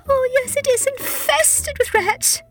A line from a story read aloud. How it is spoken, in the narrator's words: said Tabitha tearfully